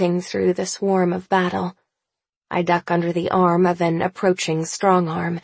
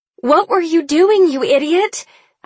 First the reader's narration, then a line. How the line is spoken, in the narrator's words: I shout, skidding to a halt